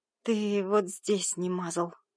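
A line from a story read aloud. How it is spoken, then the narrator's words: Hoarse female rasp. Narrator (Russian): прохрипела она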